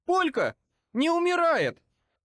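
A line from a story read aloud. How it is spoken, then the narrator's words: Shrieking. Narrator (Russian): Взвизгнул он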